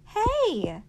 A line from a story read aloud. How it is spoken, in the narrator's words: shouted